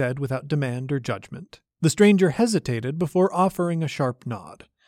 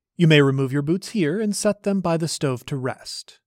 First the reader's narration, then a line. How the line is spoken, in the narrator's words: said